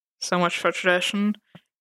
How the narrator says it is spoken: muttered Karen

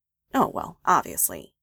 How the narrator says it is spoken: Joan said dryly

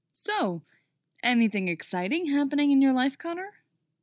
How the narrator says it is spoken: Clark asks, too brightly

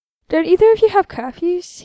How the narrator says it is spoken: asks, and then yawns

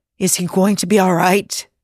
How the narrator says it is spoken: she whispers

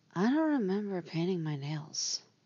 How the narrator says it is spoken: she murmurs

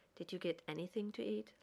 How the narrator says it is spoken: Lex asked quietly

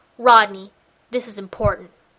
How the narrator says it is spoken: He growls

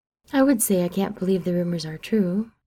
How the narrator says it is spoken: Mary says, her tone dry

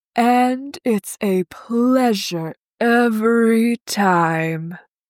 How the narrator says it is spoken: Adam sighs

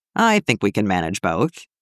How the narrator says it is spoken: Clint chuckled

